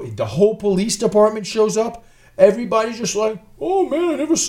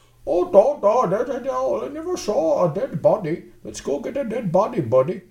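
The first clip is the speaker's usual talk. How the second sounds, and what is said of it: Mock Icelandic accent. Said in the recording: “That's how they speak in Iceland ... That's how they talk in Iceland. It's not an Indian accent.”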